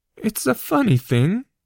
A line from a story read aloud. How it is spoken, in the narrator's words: Harry said, his voice wavering like something seen through water